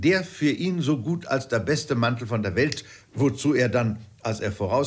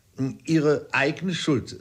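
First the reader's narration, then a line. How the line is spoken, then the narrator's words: Plain. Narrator (German): sagte Dr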